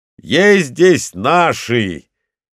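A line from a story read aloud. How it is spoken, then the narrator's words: Shout. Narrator (Russian): крикнул он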